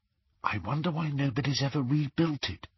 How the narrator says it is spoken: whispered Hermione

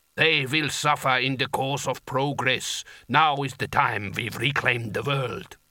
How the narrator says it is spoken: rumbled the giant

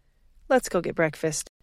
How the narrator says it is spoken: she sighed

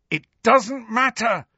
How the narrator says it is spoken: Harry shouted

